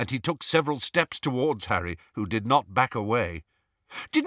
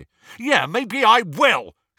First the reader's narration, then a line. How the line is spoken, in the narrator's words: shouted Ron